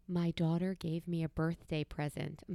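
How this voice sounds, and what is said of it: Whispering. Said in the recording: “I'm sorry to whisper”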